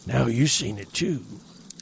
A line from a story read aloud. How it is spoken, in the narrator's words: he wheezed